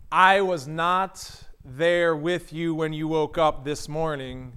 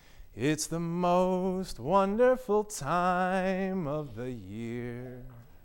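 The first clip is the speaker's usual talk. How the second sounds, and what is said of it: Crooning singer's voice. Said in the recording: “in your best Andy Williams voice, you started crooning”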